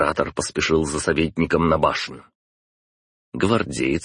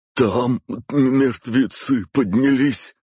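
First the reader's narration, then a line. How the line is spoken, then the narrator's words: Guard babbling. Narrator (Russian): пролепетал гвардеец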